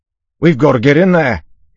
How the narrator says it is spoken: Yimt shouted

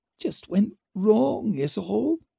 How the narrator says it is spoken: muttered Dancer

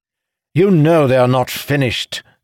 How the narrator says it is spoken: Idara spat

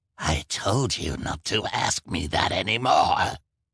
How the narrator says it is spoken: replied Olaf with a snarl

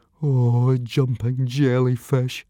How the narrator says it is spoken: moaned Fishlegs

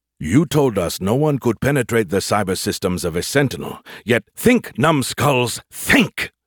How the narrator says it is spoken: Skippy snapped

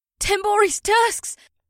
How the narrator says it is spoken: Batari cried out

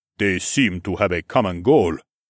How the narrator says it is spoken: Minjun said in his ominously low voice

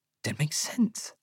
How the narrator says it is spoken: I whisper

